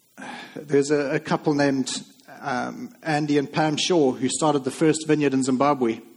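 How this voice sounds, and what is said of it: Zimbabwean accent. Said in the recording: “in case you're wondering about my accent, that's where Lindsay and I were living before we were actually born there.”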